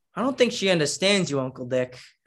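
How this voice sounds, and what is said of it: Italian American accent. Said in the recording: “You mentioned the accent ... the R's and the S's collide and like words, you know, how it's all mushed together, how Italian people, how Italian Americans talk like that”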